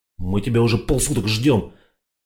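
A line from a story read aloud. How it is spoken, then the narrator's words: Grumbling. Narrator (Russian): проворчал Петька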